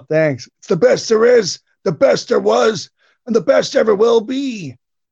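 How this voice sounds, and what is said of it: Bret Hart impression. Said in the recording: “that Brett impersonation you do is pretty good ... That really could have been Bret saying that”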